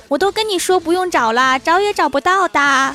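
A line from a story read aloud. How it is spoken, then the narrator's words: Shouting. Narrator (Chinese): 冲司机喊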